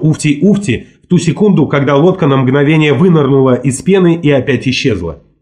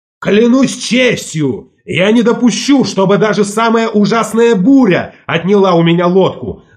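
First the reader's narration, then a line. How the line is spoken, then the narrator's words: Faint, muffled shout. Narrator (Russian): заорал Волк Ларсен, и хотя мы стояли около него, его голос слышался слабо и невнятно, точно отдаленный от нас громадным пространством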